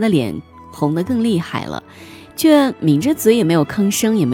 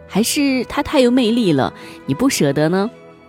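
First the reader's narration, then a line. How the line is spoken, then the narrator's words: Joking, questioning. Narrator (Chinese): 借着玩笑提出疑惑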